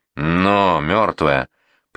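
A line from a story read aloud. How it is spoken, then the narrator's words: Sharp shout. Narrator (Russian): прикрикнул Федя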